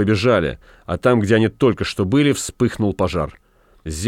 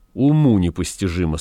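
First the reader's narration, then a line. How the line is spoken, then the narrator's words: Plain. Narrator (Russian): сказал Максим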